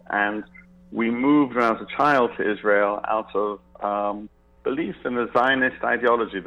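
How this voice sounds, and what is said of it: English accent. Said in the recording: “I was born in England, as you can probably tell from my accent”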